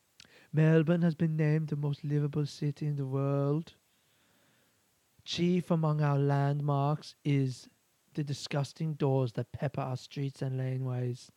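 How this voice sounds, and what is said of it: Impression of Aurelia St. Clair. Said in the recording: “I think I just went into a bit of Aurelia St. Clair there”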